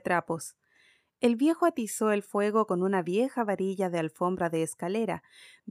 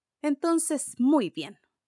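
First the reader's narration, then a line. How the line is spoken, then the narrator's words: Woman exclaiming. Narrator (Spanish): exclamó la mujer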